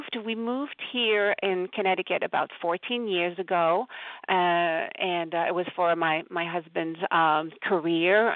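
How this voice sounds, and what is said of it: French-Canadian accent. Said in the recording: “if you're wondering about the accent, I am French-Canadian.”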